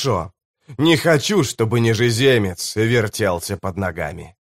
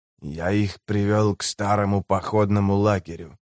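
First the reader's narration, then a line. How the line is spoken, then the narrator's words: Whisper. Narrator (Russian): прошептал нежеземец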